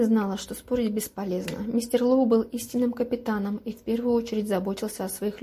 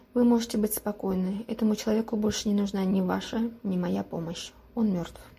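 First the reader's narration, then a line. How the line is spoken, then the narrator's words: Quiet. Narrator (Russian): она тихо произнесла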